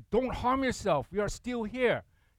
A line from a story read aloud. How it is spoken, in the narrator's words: Paul shouted